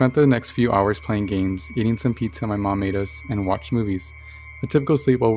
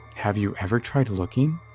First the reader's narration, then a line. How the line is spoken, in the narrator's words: he asked